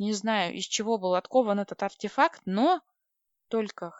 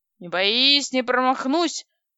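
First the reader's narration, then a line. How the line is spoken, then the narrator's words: Angry hungover bark. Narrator (Russian): гаркнул явно похмельный, а потому особенно злой дядь Дима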